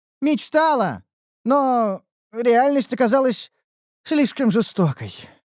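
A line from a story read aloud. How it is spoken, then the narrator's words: Sighing. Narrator (Russian): вздохнула Ниуру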